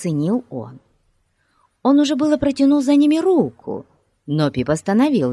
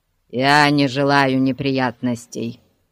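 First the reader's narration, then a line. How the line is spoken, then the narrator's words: Grumbling. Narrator (Russian): проворчал он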